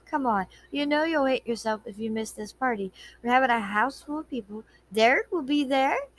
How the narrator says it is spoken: added sweetly

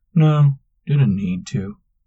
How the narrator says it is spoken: Manx sighed

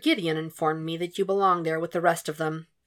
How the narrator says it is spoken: Will said lightly, forcing his voice to remain level, calm

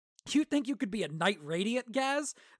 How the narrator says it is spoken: Vata said, chuckling

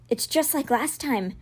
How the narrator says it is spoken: Megan said in a soft voice to the first group

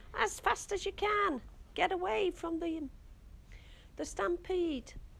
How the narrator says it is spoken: cried

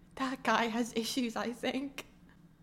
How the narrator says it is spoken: mutters

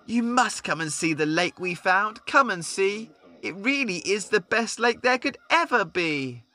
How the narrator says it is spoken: Rabbit was hopping up and down, exclaiming

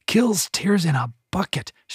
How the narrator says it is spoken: she whispered

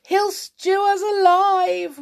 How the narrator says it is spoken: wailed the second one

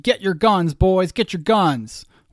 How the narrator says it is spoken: Shouts of

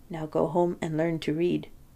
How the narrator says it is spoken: Leschetizky whispered in my ear

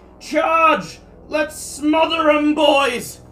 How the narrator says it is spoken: you hear shouting

